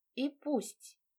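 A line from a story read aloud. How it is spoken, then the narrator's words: Gloomy. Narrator (Russian): я мрачно кивнула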